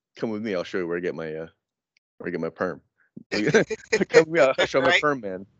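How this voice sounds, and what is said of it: Sexy voice imitating another person. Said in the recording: “In that sexy voice of his.”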